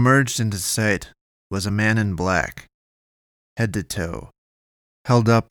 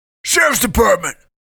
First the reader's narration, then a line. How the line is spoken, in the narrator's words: yelled, muffled by the mask